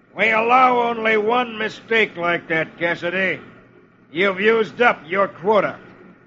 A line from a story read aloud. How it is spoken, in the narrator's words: a tough-looking character who snarls